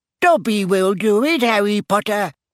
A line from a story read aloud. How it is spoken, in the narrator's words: squeaked Dobby, his tennis ball-sized eyes still swimming in tears